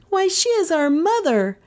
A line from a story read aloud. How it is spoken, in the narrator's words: both Kay and Gentian cried together proudly